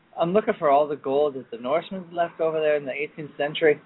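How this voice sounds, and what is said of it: Put-on Scottish-Irish accent. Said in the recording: “Now we're looking Irish, aren't we? We're actually Scottish. ... It's more of a Scottish-Irish accent.”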